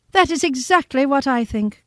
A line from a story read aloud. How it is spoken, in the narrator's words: cried Mrs